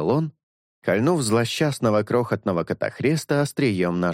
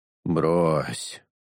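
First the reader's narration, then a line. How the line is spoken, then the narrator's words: Weary sighing interjection. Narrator (Russian): Устало вздохнув, вмешался Шелк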